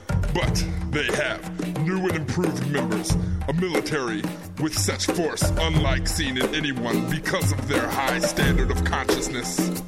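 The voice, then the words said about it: Artificially pitched-down voice. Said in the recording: “my voice is pitched down like this”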